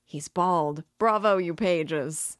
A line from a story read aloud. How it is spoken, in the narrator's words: They all laugh